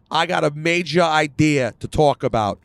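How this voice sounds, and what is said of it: Vince Russo impression, over-the-top New York accent. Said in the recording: “his New York accent. His New York accent is so over the top”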